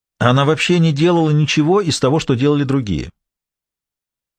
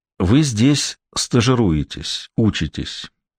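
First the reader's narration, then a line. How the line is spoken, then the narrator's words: Quiet. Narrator (Russian): тихо сказал он ей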